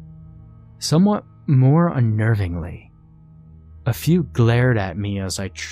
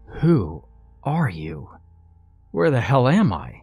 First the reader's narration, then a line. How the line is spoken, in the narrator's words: asked